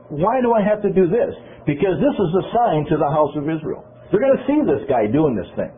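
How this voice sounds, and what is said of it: Loud, yelling delivery. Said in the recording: “I'm yelling, aren't I? I'm loud, aren't I?”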